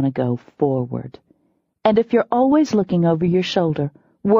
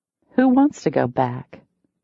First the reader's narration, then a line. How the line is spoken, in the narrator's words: I said coolly